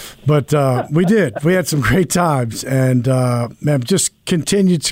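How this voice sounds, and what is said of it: Usual voice. Nothing is said of it.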